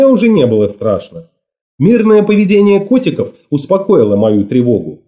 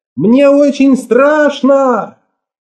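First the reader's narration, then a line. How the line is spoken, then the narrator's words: Frightened shout. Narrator (Russian): прокричала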